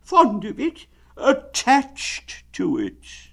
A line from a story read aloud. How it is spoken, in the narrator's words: said Winnie the Pooh sadly